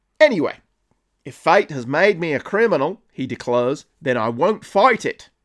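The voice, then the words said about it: Bad put-on Australian accent. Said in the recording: “the best Australian accent you're ever going to listen to ... the hate crime that was that accent”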